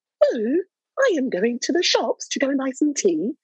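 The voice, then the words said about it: Exaggerated stereotypical British accent. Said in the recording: “I rarely find African-American people that can do a very good black British accent that doesn't sound like”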